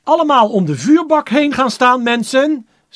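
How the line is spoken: Shouting without microphone. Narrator (Dutch): schreeuwde Grotebol, nu zonder microfoon

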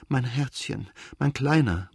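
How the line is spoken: Tender murmur, weeping. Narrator (German): murmelte Anna und begann ebenso dünn und kindlich zu weinen, wie er weinte

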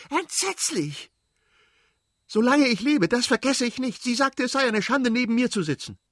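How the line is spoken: Shouted. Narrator (German): schrie sie

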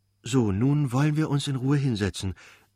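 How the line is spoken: Excited, smiling. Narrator (German): sagte Gräfin Lydia Iwanowna mit erregtem Lächeln

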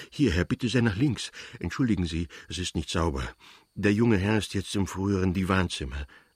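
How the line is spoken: Panting porter. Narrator (German): sagte der Portier keuchend

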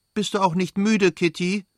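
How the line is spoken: Princess calling out. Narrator (German): rief die Fürstin

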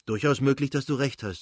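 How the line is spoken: Plain. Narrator (German): sagte er

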